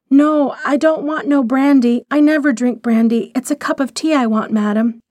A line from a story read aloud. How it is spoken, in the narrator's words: the girl almost cried out